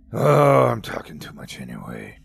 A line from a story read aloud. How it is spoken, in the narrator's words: grumbled